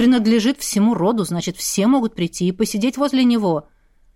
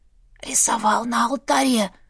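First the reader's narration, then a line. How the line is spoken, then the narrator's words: Hoarse stunned echo. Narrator (Russian): Охрипшим эхом повторила за мужем, никак не в состоянии примирить себя с новой концепцией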